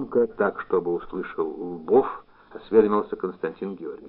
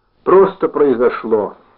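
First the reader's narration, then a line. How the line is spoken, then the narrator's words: Even, from a distance. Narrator (Russian): ответил из тамбура ровным голосом командир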